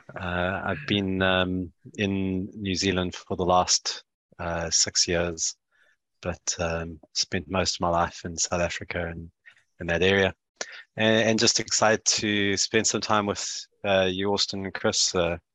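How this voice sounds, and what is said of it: South African accent. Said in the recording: “if you're trying to place the accent, I am South African born, New Zealand based.”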